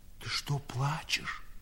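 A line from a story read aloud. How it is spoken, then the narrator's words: Old man's whispered question. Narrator (Russian): шепотом спросил старик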